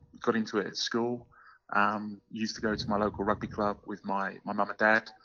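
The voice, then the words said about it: English London accent. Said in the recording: “you might be picking up from my accent ... I'm English. I'm from the UK, and originally born and bred in London.”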